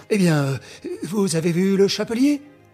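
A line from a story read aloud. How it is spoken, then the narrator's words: Impatient exclamation. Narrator (French): s'écria le juge, impatient d'obtenir un renseignement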